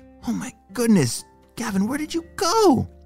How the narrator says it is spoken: Mason whispered to himself

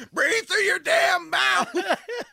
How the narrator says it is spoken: Flanders finally loses it and just screams

